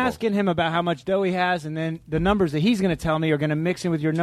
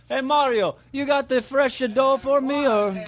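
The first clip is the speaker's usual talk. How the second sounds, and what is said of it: Bad put-on Italian accent. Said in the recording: “your Italian accent was horrible”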